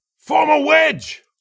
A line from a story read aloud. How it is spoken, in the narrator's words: Lassan yelled